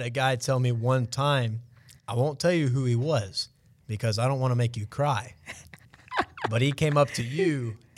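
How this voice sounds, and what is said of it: Southern American Georgia accent. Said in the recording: “this southern accent, this country kid from Georgia talking”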